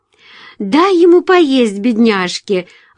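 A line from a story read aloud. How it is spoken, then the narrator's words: Exclaimed. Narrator (Russian): воскликнула Джулия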